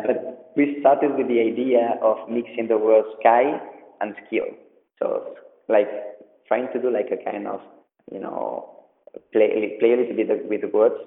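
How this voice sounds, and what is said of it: Spanish accent in English. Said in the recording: “sorry about my English because I am Spanish, so I have an accent”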